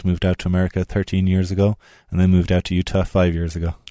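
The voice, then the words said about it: Irish accent. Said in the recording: “I noticed an accent right off the top ... you're originally from Ireland”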